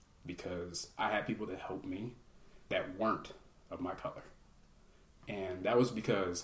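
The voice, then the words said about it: Emotional, choked-up speech. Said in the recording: “I'm getting emotional with this.”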